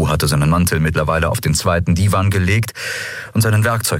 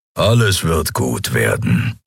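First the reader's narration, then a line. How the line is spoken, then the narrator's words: Low grumble. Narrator (German): brummte Keru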